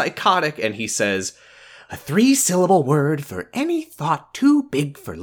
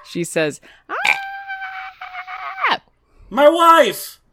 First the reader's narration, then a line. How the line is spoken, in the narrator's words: She scream